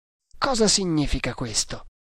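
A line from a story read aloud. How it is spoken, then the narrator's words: Murmur. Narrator (Italian): mormorò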